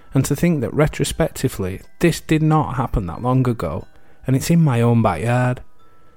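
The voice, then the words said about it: British accent. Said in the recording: “As you can tell with my accent, I'm from the UK.”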